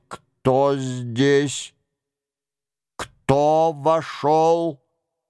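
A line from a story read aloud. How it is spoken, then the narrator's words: Strange metallic voice. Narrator (Russian): Он тем странным металлическим голосом, появлявшимся у него в определенные моменты, спросил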